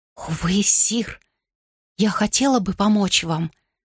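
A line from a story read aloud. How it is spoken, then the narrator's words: Whispering. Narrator (Russian): прошептала Джейн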